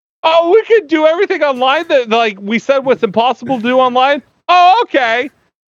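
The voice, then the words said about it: Mocking impersonation of clueless people. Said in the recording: “this is my impersonation of quarantine.”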